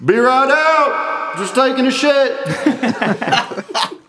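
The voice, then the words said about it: Guy calling out from public bathroom. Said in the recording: “This is my impression of a guy in the public bathroom. Maybe it's a large public bathroom. ... it's a crowded public bathroom”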